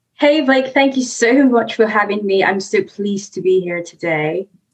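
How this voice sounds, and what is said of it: Mixed Nigerian and British accent. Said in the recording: “You have a lovely accent... I've got a mix of Nigerian accent and the UK.”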